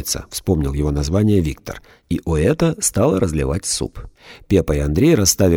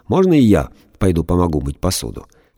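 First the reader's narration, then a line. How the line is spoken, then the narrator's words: Laughing. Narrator (Russian): Оэта рассмеялась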